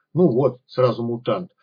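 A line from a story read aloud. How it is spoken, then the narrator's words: Sheepish grumble. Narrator (Russian): пробурчал кекс, несколько тушуясь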